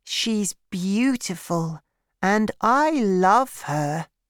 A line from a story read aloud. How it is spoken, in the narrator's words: he said